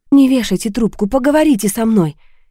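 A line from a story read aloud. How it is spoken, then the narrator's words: Frightened plea. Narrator (Russian): испуганно попросила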